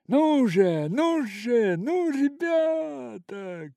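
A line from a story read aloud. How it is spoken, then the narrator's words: Shouting. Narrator (Russian): кричал Фетцевик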